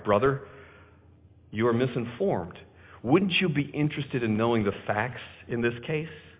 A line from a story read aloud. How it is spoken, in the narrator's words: our side of the story was presented quietly